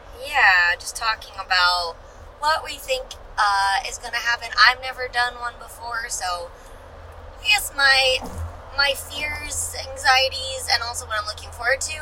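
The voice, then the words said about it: Hoarse, croaky, mostly lost voice. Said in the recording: “my voice sounds terrible. I have lost it from talking so loud at the club for like the last 3 weeks, so now I sound like a frog person”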